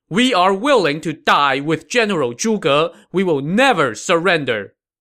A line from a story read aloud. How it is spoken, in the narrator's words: as one, they all shouted